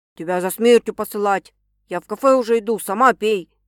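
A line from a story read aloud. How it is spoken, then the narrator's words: Angry shouting. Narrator (Russian): сердито кричит на нее Макс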